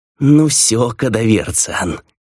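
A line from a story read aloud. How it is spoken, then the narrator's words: Impatient trembling hiss. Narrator (Russian): прошипел он, трясясь от нетерпения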